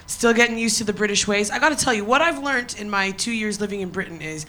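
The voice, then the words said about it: Non-British foreign accent. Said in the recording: “I'm sure you guys can notice by my accent that I am not from around here.”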